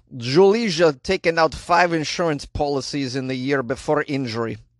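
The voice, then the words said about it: Put-on Slovenian accent. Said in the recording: “I'll bet I can do an accent that's close. Let me try.”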